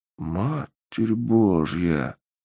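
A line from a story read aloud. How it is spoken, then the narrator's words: Muttered. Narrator (Russian): Пробормотал один из солдат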